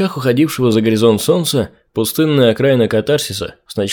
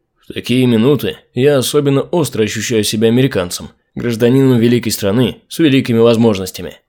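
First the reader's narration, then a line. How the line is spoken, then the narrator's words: Plain. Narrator (Russian): сказал Чамп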